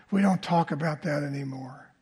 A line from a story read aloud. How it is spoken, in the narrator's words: He whispered to me